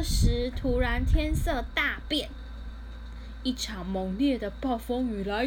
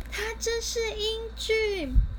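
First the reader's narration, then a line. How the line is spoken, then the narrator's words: Admiring exclamation. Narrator (Chinese): 艾丽儿忍不住赞叹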